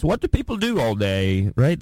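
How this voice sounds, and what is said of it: Put-on British accent. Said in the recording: “That's a good British accent.”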